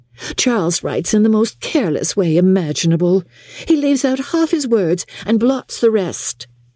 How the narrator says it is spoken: cried Miss Bingley

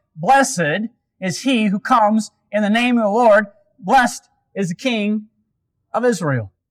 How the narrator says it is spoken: shouting

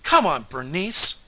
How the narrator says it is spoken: cried Otis

